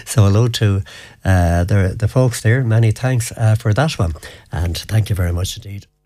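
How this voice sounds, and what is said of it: Briefly hoarse voice. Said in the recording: “a bit hoarse there for a moment”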